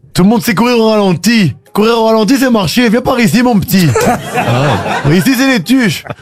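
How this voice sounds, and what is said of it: Imitating the Tuche family accent. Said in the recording (French): “Vous faites l'accent des tuches.”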